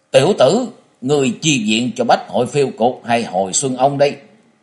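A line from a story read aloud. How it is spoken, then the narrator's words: Harsh growling shout. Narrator (Vietnamese): Ân Bổn gằn giọng quát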